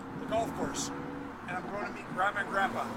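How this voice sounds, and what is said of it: Shouting over loud noise. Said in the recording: “We got to basically yell at each other, right? ... I feel like I'm yelling at you.”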